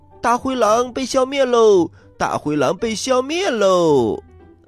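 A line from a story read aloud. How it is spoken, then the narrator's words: Loud shout. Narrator (Chinese): 七只小羊 大声的喊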